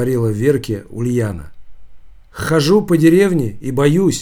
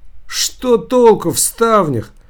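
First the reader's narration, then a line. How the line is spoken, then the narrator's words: Exclamation. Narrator (Russian): воскликнула Ульяна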